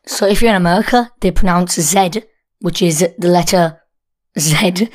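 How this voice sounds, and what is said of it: British accent. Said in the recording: “we're British, so you might notice that from our accent”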